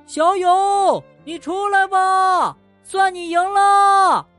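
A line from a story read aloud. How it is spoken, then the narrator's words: Group shouting together. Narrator (Chinese): 大家一起喊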